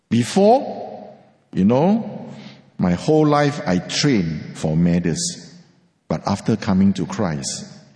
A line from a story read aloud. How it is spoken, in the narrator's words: he said